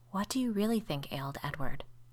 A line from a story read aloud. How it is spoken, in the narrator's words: asked Emma, in hardly more than a whisper